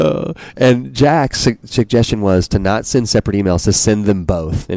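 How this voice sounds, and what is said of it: Usual voice. Nothing is said of it.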